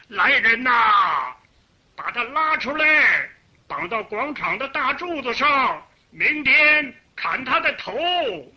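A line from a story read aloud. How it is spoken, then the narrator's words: Angry loud shouting. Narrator (Chinese): 这个大官儿 气得他呀 大声的喊起了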